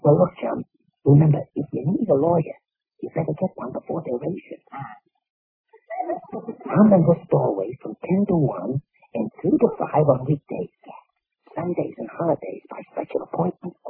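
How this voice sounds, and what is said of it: Hoarse whispering voice. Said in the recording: “why are we whispering? ... I don't know why you're whispering, but I have bronchitis ... Laryngitis.”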